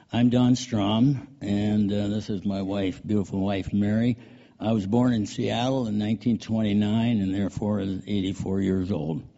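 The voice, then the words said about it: Hoarse voice from a cold. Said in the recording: “Pardon my voice. I've been fighting a cold for a few days.”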